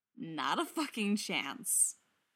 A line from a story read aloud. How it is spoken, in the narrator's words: he says cheerfully